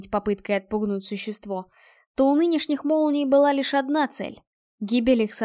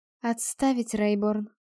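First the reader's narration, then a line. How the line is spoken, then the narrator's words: Calm. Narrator (Russian): спокойно произнесла капитан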